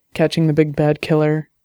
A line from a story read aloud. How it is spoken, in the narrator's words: Her voice was sarcastic